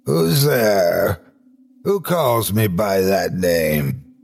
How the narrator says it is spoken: he hoarsely demanded

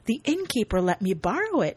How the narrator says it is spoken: says happily

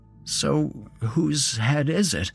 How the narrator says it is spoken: I asked nervously

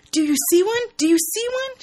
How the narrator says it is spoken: asks excitedly

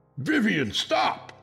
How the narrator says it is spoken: I screamed

